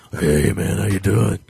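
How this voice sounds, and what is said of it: Deep, gravelly imitated male voice. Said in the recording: “my impression of his voice, but it's really hard to do because he's got a really deep voice, real gravelly ... Cross between Macho Man Charles Bronson and Christian Bale's Batman”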